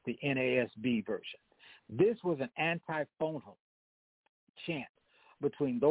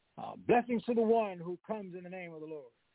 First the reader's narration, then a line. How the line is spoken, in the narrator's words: the group in the back would shout